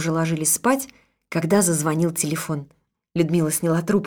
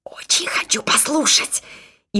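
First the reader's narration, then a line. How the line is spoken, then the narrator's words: Whispered. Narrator (Russian): Людмила прошептала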